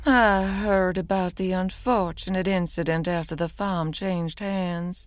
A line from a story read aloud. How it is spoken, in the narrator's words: Delilah purred softly